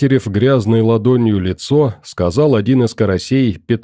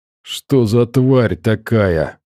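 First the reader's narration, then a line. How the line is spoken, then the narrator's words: Groaning. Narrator (Russian): простонал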